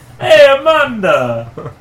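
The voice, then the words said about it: Put-on Jamaican accent. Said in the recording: “It sounds like you have a Jamaican accent.”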